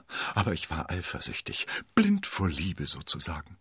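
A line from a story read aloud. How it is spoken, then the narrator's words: Stammering. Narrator (German): stammelte er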